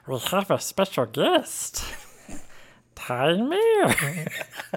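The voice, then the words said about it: Gollum impression. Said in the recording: “do a Gollum voice ... in your best Gollum impression ... do I go Gollum or do I go Smeagol”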